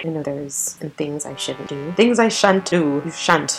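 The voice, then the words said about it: Put-on British accent. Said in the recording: “I can only do a British accent.”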